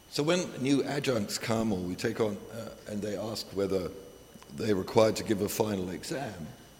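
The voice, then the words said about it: Strained, unwell-sounding voice. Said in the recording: “my voice is not in very good shape today”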